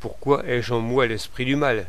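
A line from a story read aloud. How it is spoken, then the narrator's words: Plain. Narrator (French): demanda-t-il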